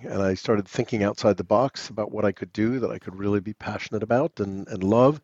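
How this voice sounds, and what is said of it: New York American accent. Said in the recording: “I'm guessing from your accent, that's not a Cotswolds accent ... That is not. I grew up ... on the Upper East Side of Manhattan.”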